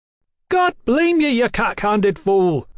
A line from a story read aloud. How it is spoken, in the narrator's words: Mallory bellowed